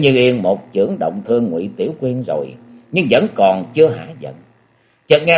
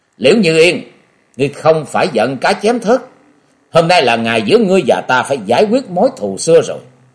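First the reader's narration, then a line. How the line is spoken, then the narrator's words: Loud angry shout. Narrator (Vietnamese): lớn tiếng quát to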